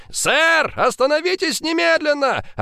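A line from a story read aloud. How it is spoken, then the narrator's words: Two police officers shouting. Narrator (Russian): Орали копы в два голоса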